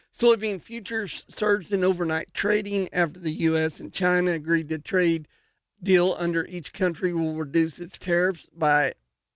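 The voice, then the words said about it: Rough, strained-sounding voice. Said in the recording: “my voice is crazy today ... it's just really tearing me up”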